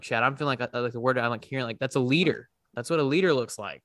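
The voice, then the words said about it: Choked up, near tears. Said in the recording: “I'm getting choked up, man. I'm like making myself cry.”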